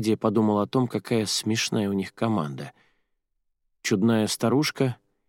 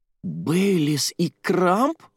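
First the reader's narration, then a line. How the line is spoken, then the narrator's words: Horrified exclamation. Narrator (Russian): в ужасе воскликнула Джуди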